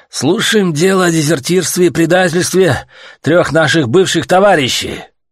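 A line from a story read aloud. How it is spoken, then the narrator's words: Wheezy hiss. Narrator (Russian): засипел Святослав Константинович со своего трона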